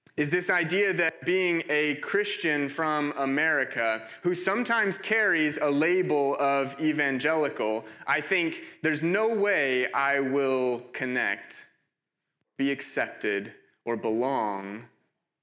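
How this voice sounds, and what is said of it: American accent, somewhat hard to place. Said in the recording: “you can probably tell by my accent, not from here... I'm from America... Mine, mine is uh, slightly less hybrid. Mine's a little more American... my accent is often hard to place. Um, I get Canada sometimes”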